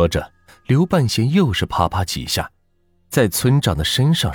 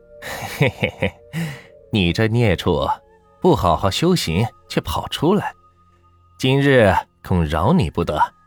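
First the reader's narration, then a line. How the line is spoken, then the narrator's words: Chuckling, mocking. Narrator (Chinese): 刘半仙笑着摇头说道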